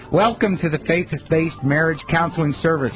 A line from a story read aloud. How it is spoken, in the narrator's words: she says in this chirpy little voice